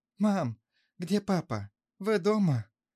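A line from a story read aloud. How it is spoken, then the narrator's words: Joyful tearful speech. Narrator (Russian): Он радостно, со слезами на глазах сказал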